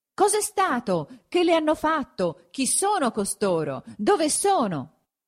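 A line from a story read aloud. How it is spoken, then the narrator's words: Many voices shouting at once. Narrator (Italian): gli veniva gridato da 50 voci a un tratto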